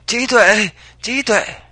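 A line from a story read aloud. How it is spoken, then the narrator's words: Strained, urgent shouting. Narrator (Vietnamese): Mỗi bước về phía trước luôn tốn về sức lực, càng khiến hắn la hét cấp thêm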